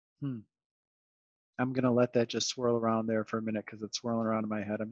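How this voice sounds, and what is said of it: Calm, measured public-radio voice. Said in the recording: “That's why I went into my NPR voice.”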